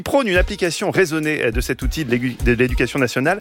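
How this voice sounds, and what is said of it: Put-on singsong southern French accent. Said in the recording (French): “je prends l'accent du sud. ... j'ai l'accent chantant”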